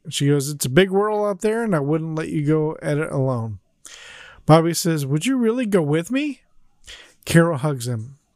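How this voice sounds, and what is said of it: Choked-up, emotional voice. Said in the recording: “getting choked up ... I'm getting verklempt”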